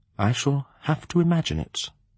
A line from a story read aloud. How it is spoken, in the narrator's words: he murmured